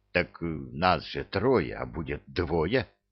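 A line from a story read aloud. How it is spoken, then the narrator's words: Whispered objection. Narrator (Russian): шепотом возразил Кевин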